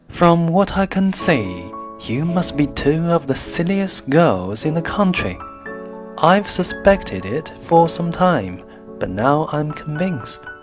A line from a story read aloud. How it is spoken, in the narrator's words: Bennet said coolly